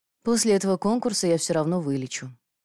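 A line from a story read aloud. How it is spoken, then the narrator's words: Sighing. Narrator (Russian): вздохнула Ефимия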